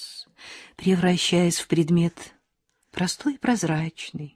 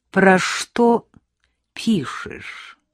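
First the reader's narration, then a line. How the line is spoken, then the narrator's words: Unnatural voice. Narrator (Russian): спросила Вера Ивановна неестественным голосом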